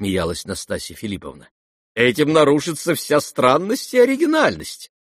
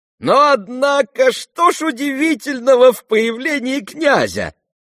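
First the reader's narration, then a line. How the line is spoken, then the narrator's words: Shouting loudest. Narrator (Russian): закричал громче всех Фердыщенко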